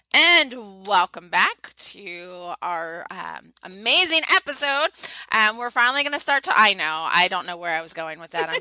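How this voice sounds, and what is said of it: Strained, fading voice. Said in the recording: “my voice is going, my coughing's picking up”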